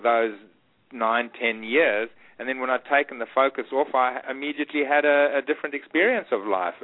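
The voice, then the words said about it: Strong South African accent. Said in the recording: “you still have a very strong South African accent ... it's a great accent.”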